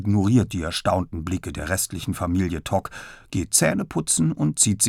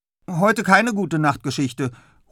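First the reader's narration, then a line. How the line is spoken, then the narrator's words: Called out. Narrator (German): ruft er Papa noch zu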